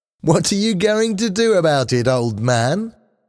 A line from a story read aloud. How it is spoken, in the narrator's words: asked, laughing